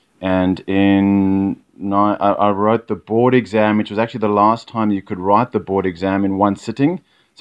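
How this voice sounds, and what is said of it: South African accent. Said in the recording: “Listeners will no doubt pick up the South African accent.”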